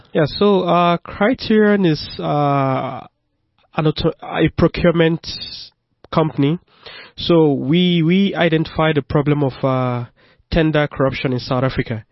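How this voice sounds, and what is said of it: Noticeable foreign accent. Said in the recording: “you can hear he's got an accent”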